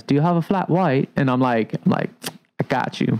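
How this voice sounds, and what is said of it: Attempted Australian accent sounding British. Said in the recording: “Maybe that was a more British accent... that was very British... Accents are hard, man... if I just did like an Australian accent in my mind, I was like, ooh, that was British”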